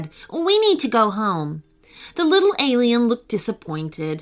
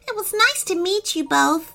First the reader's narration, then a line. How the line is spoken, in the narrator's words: she said sadly